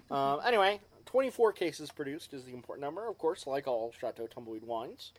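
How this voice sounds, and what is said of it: Slight Texas twang. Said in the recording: “I have a bit of a Texas twang.”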